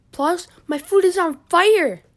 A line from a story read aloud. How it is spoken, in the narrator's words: screamed Jamal